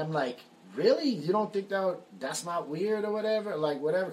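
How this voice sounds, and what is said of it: Usual voice. Nothing is said of it.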